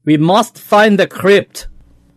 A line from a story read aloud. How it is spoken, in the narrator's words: a voice said sharply in the dark